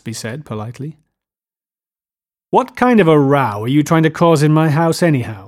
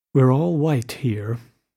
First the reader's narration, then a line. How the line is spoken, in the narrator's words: murmured Jordan